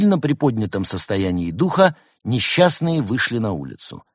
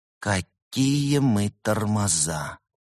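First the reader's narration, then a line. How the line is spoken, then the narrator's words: Whispering. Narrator (Russian): прошептала Берта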